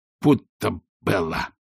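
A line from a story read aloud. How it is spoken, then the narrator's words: Mumbling, injured jaw. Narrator (Russian): пробормотал Ринсвинд, держась за поврежденную челюсть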